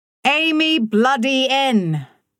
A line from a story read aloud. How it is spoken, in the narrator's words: Oil yelled again